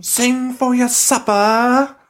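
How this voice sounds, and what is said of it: Put-on British accent. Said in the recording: “That's like a British accent.”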